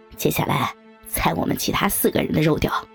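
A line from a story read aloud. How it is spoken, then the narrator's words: Laughing. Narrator (Chinese): 小明笑着说道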